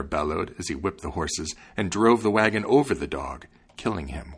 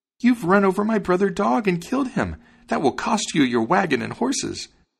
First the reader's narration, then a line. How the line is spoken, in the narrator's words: exclaimed the sparrow